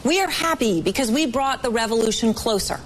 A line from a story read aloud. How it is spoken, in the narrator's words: reportedly yelled